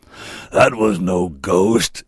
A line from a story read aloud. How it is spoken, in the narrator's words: roared